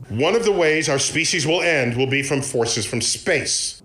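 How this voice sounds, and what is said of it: Poor Neil deGrasse Tyson impression. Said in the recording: “best Neil deGrasse Tyson impression ... That's a terrible impression ... this one... falls flat ... Wasn't realistic at all.”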